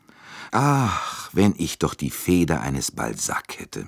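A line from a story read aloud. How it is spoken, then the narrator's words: Sighing. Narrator (German): sagte er seufzend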